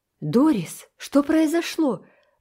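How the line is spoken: Exclaim. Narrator (Russian): воскликнула мама

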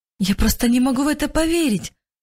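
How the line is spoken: Answered, bursting into sobs. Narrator (Russian): ответила Мария и разрыдалась

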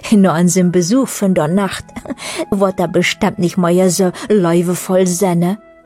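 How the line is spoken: Others laughing. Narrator (German): äußerten andere lachend

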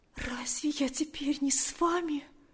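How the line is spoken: Female whisper. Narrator (Russian): прошептала она

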